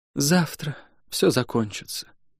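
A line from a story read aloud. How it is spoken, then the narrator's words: Sleepy whisper. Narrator (Russian): сонно прошептала она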